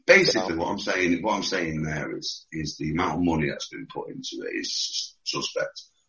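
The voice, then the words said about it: British accent. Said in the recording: “I have friends that are from the UK and their accent, your specific accent is a little bit harder.”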